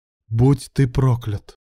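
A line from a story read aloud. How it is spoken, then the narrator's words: Through gritted teeth. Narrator (Russian): Процедил сквозь зубы Илья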